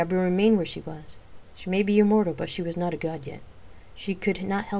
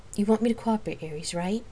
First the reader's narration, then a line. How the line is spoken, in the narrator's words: she sighed